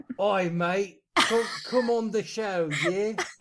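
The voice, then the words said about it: Put-on British accent. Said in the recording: “speaking with a British accent ... James Roberts and his accent”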